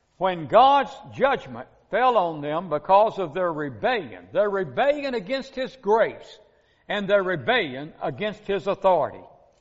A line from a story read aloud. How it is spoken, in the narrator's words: the people cried out